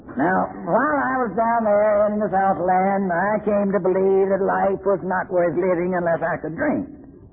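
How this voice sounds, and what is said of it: Southern American accent. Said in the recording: “I teach Shakespeare with a southern accent... that accent started coming out of the White House”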